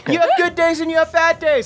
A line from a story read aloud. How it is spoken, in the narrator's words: I scream